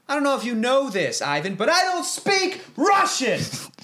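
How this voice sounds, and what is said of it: Sam Rockwell impression. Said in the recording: “I'm going to give you my best Samming Rocking”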